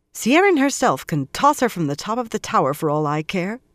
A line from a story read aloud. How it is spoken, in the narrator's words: Moiraine snapped